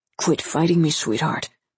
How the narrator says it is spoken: the man whispered into Letty's ear

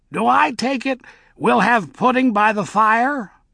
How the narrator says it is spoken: said, looking up brightly

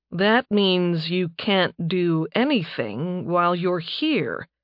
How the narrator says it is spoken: he said slowly

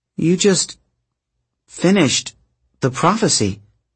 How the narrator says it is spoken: Rachel stammered

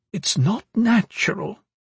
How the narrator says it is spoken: the wight said quietly

